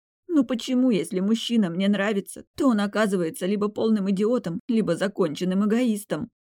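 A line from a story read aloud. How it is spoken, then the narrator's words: Trailing into sobs. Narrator (Russian): Окончание фразы потонуло в рыданиях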